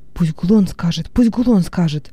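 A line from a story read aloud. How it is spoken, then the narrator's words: Several voices whispering. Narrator (Russian): зашептало несколько голосов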